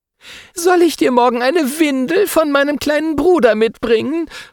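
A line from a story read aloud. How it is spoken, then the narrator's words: Girl saying, laughing. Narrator (German): meint ein Mädchen lachend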